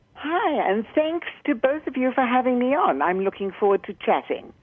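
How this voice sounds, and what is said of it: South African accent. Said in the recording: “that is a South African accent. That is a treat to the ears.”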